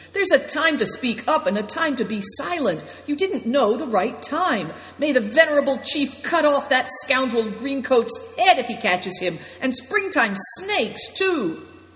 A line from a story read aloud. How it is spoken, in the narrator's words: shouted Good Fortune